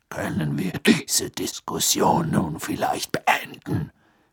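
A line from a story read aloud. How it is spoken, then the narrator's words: Growled. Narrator (German): knurrte Moody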